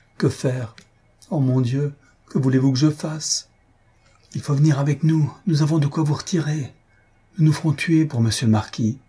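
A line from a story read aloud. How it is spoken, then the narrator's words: Exclaimed. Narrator (French): Elle s'écria enfin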